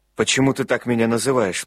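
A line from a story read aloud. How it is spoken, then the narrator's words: Sharp question. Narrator (Russian): спросил он резко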